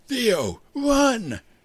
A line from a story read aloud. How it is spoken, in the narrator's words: Jimmy bellowed